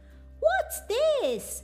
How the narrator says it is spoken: He squeaked with delight

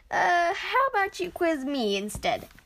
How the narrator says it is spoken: Ash laughed

